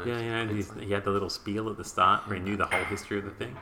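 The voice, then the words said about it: Whispering. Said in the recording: “all of that whispering”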